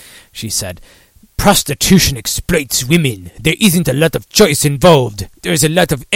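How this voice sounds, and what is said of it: Usual voice. Nothing is said of it.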